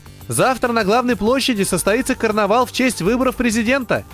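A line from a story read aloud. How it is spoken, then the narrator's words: Funny little man shouting. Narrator (Russian): прокричал этот смешной человечек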